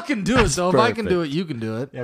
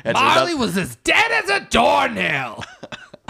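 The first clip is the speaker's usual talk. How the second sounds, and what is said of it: Imitates another person's voice. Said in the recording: “do a Gilbert Gottfried, Gonzo's Gilbert Gottfried... That's my only impression.”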